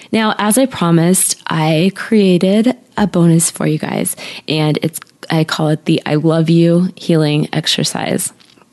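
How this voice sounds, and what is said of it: Slightly off, sore-throat voice. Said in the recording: “my voice sounds a little weird ... I've had a sore throat thing going on for about a week now”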